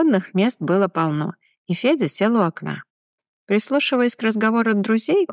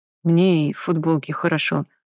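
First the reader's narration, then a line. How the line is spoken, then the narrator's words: Muttered. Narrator (Russian): буркнул Глеб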